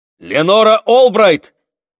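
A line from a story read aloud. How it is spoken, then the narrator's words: Shout. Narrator (Russian): крикнул мужчина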